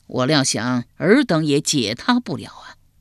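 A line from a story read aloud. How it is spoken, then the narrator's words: Sighing. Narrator (Chinese): 管仲叹了口气道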